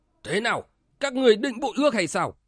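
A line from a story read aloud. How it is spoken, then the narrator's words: Angry roar. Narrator (Vietnamese): Dại Hiêu tiền vệ nổi giận gào lên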